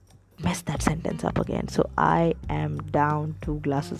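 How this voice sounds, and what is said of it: Usual voice. Nothing is said of it.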